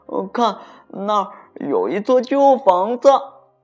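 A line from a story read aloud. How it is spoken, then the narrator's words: Sudden loud. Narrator (Chinese): 丹丽突然大声地说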